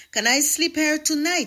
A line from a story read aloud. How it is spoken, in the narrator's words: asked excitedly